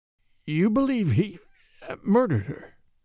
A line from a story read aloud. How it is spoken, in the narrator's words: said Van Alden, hoarsely